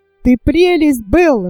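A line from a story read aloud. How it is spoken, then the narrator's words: Bursting out laughing. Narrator (Russian): расхохотался Фердинанд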